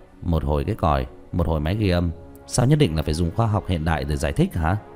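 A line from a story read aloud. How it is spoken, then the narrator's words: Smiling. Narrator (Vietnamese): Tứ Bảo mỉm cười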